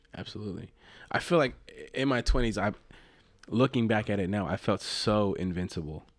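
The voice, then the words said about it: Tired, run-down voice. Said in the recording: “you can hear it in my voice. ... it's starting to wear on me, and I feel like I'm getting sick.”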